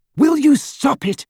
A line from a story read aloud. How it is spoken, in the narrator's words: she cried